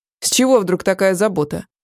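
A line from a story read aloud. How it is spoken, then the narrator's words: Irritated question. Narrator (Russian): раздраженно спросил муж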